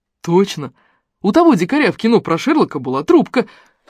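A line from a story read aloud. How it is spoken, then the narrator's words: Joyful exclamation. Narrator (Russian): радостно воскликнул напарник боксера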